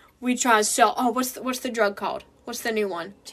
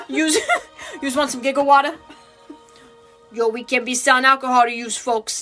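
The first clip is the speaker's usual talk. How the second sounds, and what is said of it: New York newsie mobster accent. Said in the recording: “he turns into this little mob boy ... this New York newsies accent ... that's how he starts talking”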